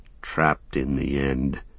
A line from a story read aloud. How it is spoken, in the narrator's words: said Sam bitterly, his anger rising again above weariness and despair